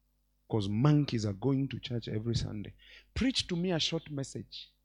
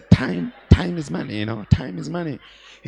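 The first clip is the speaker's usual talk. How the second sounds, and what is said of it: Put-on different accent. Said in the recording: “You even change your accent. ... A monkey changing the accent.”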